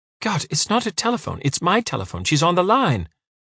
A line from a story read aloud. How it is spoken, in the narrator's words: Parvana said impatiently